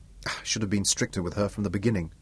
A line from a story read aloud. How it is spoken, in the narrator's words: he decided grimly